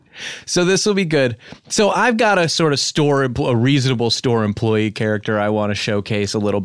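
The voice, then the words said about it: Congested voice from a cold. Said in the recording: “I've got a cold.”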